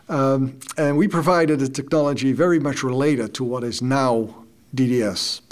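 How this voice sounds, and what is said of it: Dutch accent. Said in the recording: “I actually started my own company in the Netherlands. That's where I'm from. That explains the accent.”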